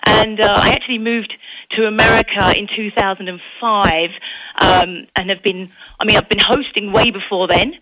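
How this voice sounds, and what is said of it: English Essex accent. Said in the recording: “I do have an accent. I'm born and raised in England, a place called Essex, just outside of London.”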